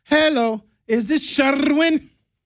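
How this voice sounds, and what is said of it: Put-on thick accent, phone caller. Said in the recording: “Accent be getting thicker every time I answer the phone.”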